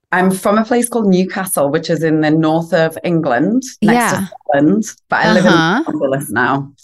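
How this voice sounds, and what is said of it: Northern English accent. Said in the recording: “you have an accent ... you sound really cool ... a dodgy northern accent”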